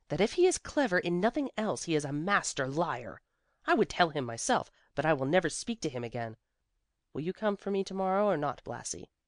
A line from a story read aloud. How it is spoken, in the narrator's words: she said scornfully